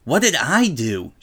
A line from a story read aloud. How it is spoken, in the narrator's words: angrily asked